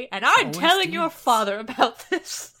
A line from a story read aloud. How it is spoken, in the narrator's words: says the queen angrily